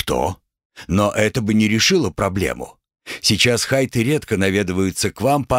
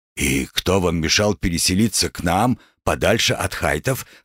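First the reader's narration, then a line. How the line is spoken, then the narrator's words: Scoffing grunt. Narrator (Russian): хмыкнул Николай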